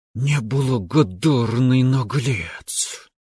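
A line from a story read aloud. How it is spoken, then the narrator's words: Angry hiss, grandmother. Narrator (Russian): прошипела на меня бабушка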